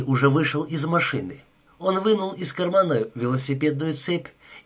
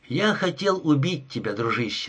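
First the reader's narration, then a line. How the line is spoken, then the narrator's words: Soft. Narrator (Russian): сказал мягко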